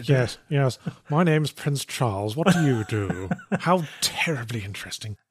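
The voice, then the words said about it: Posh received pronunciation English accent. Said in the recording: “the received pronunciation accent ... where you sound out all the vowels and consonants, and it generally makes you sound posh ... it also helps if you like raise your upper lip”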